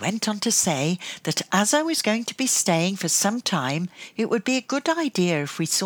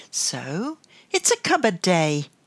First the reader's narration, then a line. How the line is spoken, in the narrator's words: added brightly